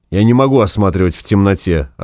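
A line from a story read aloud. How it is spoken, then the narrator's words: Irritated. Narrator (Russian): раздраженно сказал доктор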